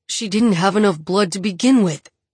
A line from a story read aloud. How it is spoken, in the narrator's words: he growls